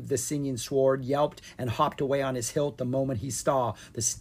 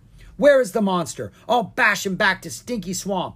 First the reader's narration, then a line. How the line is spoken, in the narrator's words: Butterfingers the angry elf shouted